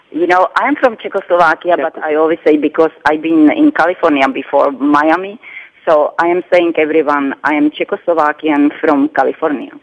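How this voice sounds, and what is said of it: Non-American foreign accent. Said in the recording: “accent is not a U.S.-born accent.”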